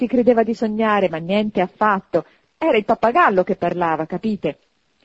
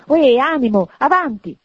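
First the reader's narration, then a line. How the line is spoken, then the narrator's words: Sudden shift, self-pitying exclamation. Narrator (Italian): con un'insolita rapidità di transizione, esclamò, compiangendo l'altro se stesso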